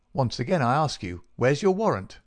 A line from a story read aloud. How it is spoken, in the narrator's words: shouted the furious Peters